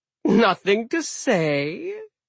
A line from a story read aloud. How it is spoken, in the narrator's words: Loki chuckled